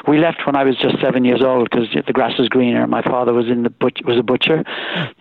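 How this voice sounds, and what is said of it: Slight Irish brogue. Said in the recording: “everybody tells me I still have a sort of an Irish brogue in my voice”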